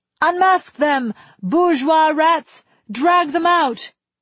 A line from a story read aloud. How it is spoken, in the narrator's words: The shouting had a merry dancing quality, a French Pierrot two-step